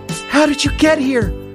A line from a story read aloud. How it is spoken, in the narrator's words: cried